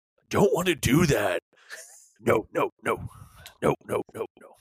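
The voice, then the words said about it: Imitates another person's voice. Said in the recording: “That's really good. That's a really good impression.”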